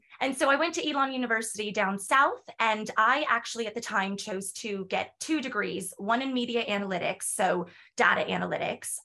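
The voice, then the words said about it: American accent. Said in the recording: “With the accent, I love it... I'm American”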